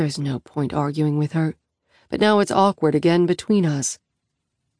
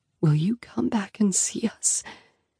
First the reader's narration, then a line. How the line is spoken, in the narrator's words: whisper hoarsely